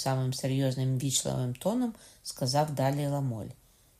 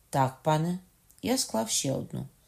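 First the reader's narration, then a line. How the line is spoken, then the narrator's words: Calm. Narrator (Ukrainian): відповів Ламоль, спокійно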